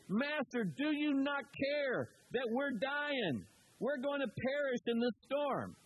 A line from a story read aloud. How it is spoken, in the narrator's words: yell, over the sound